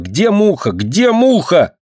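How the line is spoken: Furious shouting. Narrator (Russian): Динка, словно ослепшая от бешенства, кричала

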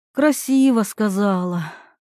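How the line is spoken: Sighing. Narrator (Russian): вздохнула Ирина

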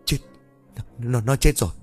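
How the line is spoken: Terrified stammer. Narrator (Vietnamese): run rẩy, xanh mặt lại rồi lắp bắp

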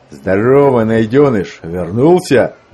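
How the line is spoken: Loud greeting, burly man. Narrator (Russian): громко поприветствовал его громила Гардинг

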